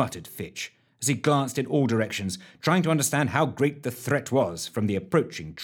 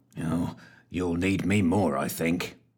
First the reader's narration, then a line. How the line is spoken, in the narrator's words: growled Fitch